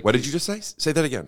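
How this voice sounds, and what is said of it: Impression of a stuck, excited writer. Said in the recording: “I'm doing an impression of a guy who is like has a little writer's block”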